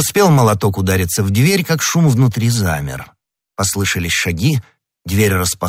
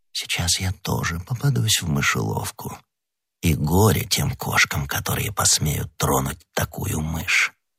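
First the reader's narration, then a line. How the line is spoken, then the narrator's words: Whisper. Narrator (Russian): прошептав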